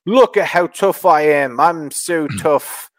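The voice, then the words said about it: Weak imitation of Bex's accent. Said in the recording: “I'm not good at doing her accent”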